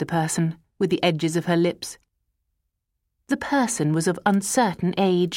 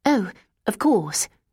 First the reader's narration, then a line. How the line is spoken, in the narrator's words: said Bella